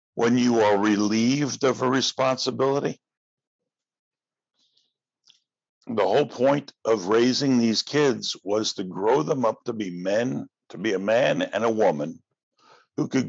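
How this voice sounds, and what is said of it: Hoarse, fading voice. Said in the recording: “I'm losing my voice. It's not good.”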